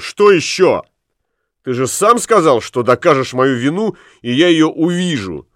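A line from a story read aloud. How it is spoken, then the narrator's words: Furious shout. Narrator (Russian): Это его так взбесило, что он крикнул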